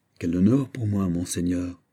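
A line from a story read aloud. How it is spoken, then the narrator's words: Plain. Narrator (French): dit-il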